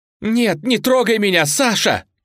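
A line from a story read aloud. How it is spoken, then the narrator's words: Shouting. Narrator (Russian): кричала Настя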